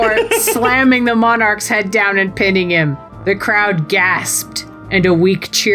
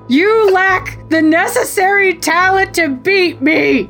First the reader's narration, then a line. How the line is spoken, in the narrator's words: Scott screamed